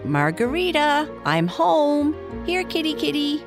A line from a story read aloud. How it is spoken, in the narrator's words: Libby called out